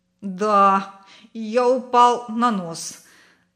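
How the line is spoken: Laughing. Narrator (Russian): засмеялся Славик

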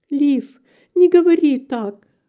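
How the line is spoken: Wife exclaiming, voice breaking. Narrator (Russian): воскликнула его жена, и ее голос сорвался

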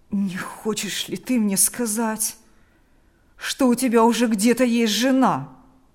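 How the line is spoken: Groaning. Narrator (Russian): простонал он

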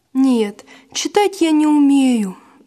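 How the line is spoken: Sighing. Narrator (Russian): вздохнул Василь

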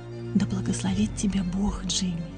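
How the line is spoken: Whispered. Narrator (Russian): прошептала

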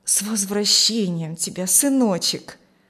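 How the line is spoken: Gentle, affectionate. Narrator (Russian): ласково сказала она

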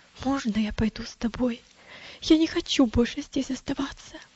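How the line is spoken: Frightened near-whisper. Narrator (Russian): мальчик выглядел тоже очень испуганным и сказал почти шепотом

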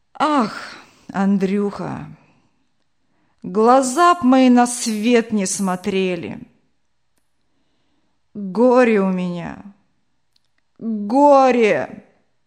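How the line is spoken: Heavy sigh, tearful grief. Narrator (Russian): Дед Степан тяжело вздохнул, и в глазах его засверкала влага

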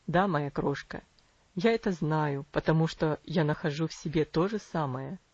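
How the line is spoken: Gentle fatherly reply. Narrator (Russian): мягко ответил отец

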